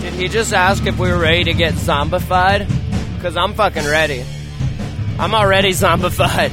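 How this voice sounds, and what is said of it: Strained, worn-out voice. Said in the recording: “My voice is gone.”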